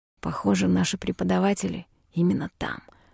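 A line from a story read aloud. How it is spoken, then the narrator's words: Whispering. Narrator (Russian): шепнул Мишель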